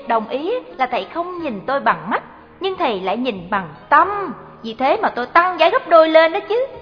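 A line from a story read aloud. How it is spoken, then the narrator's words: Girl, smiling. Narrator (Vietnamese): Cô gái mỉm cười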